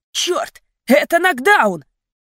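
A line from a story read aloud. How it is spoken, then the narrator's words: Shout. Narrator (Russian): Трэвис закричал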